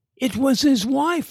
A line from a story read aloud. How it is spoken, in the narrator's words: Larry shouted back instantly